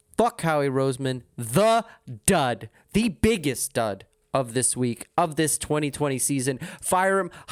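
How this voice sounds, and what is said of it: Frantic, ranting delivery. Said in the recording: “I got my fingers wagging. I am talking like a madman.”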